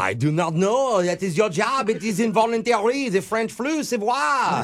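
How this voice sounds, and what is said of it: Put-on French accent. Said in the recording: “I hear an accent ... now you're putting on a French accent?”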